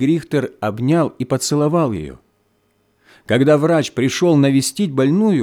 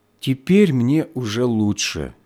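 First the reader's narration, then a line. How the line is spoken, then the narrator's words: Deep breath, then speaking. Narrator (Russian): она глубоко вздохнула и проговорила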